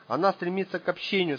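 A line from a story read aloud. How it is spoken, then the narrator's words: Plain. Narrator (Russian): сказал Антонов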